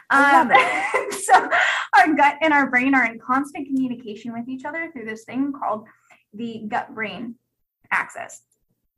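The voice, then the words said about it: Instructive teacher-like speaking voice. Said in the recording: “Can you tell my teacher voice is on right now?”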